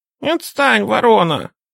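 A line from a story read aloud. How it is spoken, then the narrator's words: Angry squeaking birds. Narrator (Russian): сердито пропищали славки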